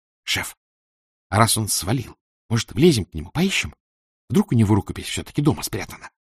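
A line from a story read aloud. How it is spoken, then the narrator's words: Whisper. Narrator (Russian): шепнула Валя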